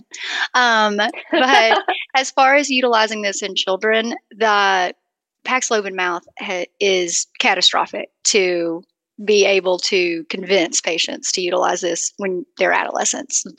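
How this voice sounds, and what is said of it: Southern US accent. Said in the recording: “I have a Southern accent.”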